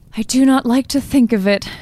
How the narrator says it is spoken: she said unsteadily

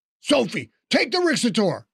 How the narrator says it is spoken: Teddy shouted

